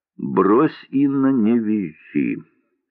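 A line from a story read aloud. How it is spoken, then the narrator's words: Lazy, offhand. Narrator (Russian): лениво сказала Варвара Павловна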